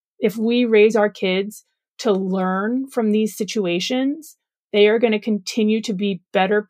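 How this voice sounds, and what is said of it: Usual voice. Nothing is said of it.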